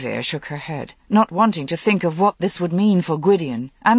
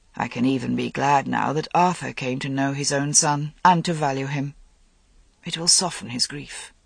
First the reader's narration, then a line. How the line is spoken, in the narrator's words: Lancelot said softly